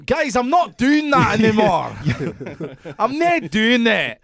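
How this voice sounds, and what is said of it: Put-on Scottish accent. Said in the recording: “do it in a Scottish ... Accent”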